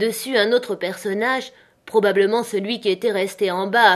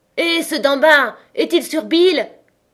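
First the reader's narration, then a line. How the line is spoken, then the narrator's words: Blind man shouting again. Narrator (French): cria de nouveau l'aveugle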